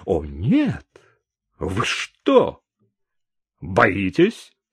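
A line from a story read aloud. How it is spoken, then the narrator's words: Angry exclamation. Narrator (Russian): сердито воскликнул сержант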